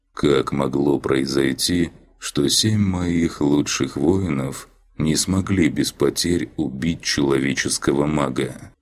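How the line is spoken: Tired, detached voice. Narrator (Russian): Голос Ахримана звучал устало и отстраненно

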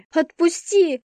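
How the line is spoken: Screamed while struggling. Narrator (Russian): закричала я, брыкаясь

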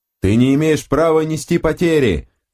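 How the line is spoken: Yelling. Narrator (Russian): орал на него Мейзер

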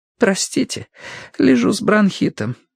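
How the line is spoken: Hoarse. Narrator (Russian): хрипло проговорила она

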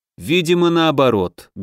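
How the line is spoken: Dull muffled reply. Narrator (Russian): глухо отозвался Максим Федорович

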